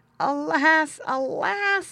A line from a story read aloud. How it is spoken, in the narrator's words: he groaned